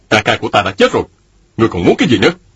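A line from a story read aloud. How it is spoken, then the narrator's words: Angry. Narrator (Vietnamese): Mạnh Đào giận dữ nói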